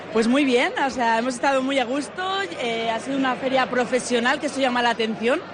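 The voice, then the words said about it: Strong Rioja Alavesa Spanish accent. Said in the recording (Catalan): “el seu accent de la Rioja Alavesa és molt marcat”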